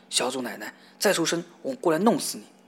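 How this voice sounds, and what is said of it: Fierce, menacing voice. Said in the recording (Chinese): “用凶狠的声音说”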